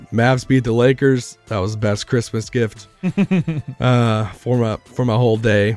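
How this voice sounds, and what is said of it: Voice not fully recovered. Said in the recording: “I'm feeling a lot better, but my voice is still not fully back yet”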